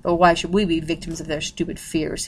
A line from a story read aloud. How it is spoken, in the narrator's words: he asked bitterly